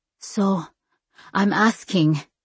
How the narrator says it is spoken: my mom said at last, her voice shaking

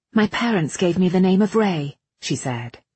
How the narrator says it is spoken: she said, quickly choosing her words

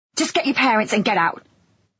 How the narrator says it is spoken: I snapped

